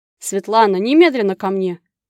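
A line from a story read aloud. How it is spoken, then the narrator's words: Barked. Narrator (Russian): как рявкнул Иван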